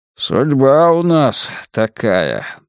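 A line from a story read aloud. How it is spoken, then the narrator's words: Gloomy sigh. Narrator (Russian): мрачно вздыхает падла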